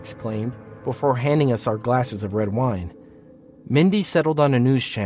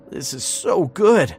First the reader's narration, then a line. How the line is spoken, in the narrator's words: moaned between mouthfuls